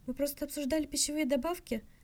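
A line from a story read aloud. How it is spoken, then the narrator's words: Timid babble. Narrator (Russian): пролепетала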